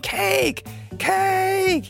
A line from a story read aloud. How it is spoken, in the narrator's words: this battalion of kids ... screaming